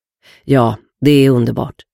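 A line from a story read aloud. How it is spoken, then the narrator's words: Calm reply. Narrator (Swedish): svarade lugnt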